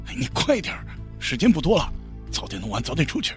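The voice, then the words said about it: Quiet, hushed speech. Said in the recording (Chinese): “周鹏小声对李月说。”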